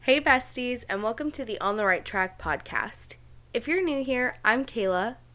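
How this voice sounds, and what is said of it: Sick, slightly rough-sounding voice. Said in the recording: “my voice is a little messed up. She is a little bit under the weather ... my voice does sound a little weird”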